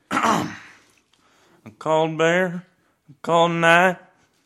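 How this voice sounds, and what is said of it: Imitates a country singer's voice. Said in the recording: “his renowned impression of every country song ever”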